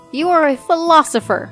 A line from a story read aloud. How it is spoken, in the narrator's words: he cried